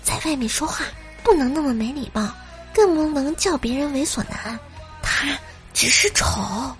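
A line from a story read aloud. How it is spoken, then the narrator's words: Whispered. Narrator (Chinese): 小声的对小萝莉说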